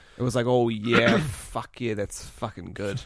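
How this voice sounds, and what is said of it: Put-on South Island New Zealand accent. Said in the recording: “hearing a New Zealand accent ... particularly because it's like a South Islander”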